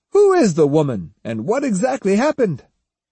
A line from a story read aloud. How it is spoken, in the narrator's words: Then more loudly